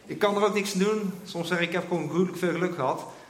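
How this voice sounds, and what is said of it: Dutch speaker with Brabant accent. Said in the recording (Dutch): “ik kom uit Eindhoven, dus vergeef me voor mijn Brabantse accent.”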